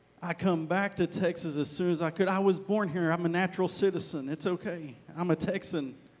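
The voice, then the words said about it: Mixed Arkansas and Texas accent. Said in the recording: “Hopefully you get my accent, because I grew up in Arkansas ... my accent gets mixed up”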